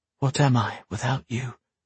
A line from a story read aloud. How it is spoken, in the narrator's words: asked, his voice a whisper